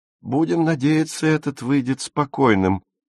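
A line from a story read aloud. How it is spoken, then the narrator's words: Large woman answered joyfully. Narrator (Russian): радостно ответила крупная круглолицая женщина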